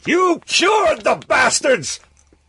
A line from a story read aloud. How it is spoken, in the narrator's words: Suddenly he screamed